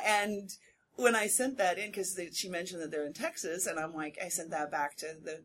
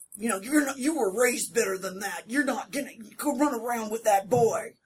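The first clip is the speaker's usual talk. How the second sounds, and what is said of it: Generic Southern American accent. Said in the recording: “I was doing fairly generic Southern also, but she thought I sounded exactly Texas”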